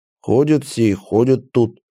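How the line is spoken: Grumbling. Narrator (Russian): проворчал привратник

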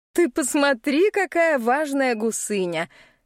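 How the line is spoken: Laughing. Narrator (Russian): Смеясь, говорит Миранда

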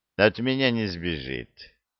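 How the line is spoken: Cold. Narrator (Russian): холодно сказал Санти

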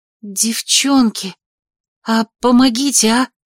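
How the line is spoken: Breathless exhale. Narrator (Russian): выдохнула

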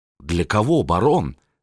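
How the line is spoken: Plain. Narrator (Russian): спросил Левенвольде

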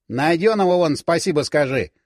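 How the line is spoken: Snapping, cooling down. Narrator (Russian): огрызнулся Юрка, но, похоже, уже начал отходить

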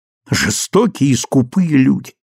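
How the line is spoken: Exclamation. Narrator (Russian): воскликнула моя мать

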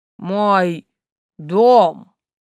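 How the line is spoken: Hoarse monster's rasp. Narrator (Russian): прохрипел монстр

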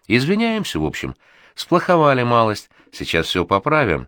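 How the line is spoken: Cheerful announcement. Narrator (Russian): бодро сообщает уволень

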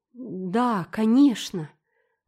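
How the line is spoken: Trembling voice. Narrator (Russian): дрогнувшим голосом ответила мисс Лаванда

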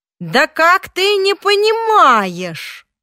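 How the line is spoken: Yelling. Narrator (Russian): он заорал

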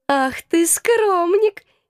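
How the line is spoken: Giggling. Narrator (Russian): хихикала она

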